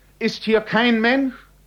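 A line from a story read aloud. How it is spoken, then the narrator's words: Cry out. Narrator (German): Und er schrie auf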